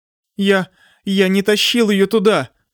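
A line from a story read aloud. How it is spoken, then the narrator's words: Nearly sobbing. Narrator (Russian): сказал Танг Юань, почти рыдая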